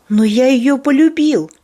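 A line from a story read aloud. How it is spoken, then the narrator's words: Young boy exclaiming. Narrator (Russian): воскликнул Анжел, которому не было еще и 16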